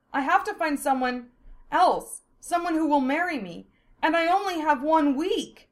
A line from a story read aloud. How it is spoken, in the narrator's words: Hollis exclaimed, eyes tearing up